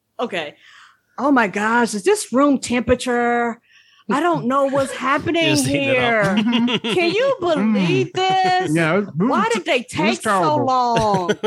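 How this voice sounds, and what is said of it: Imitates complaining wedding guests. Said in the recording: “can you do the people that were complaining?”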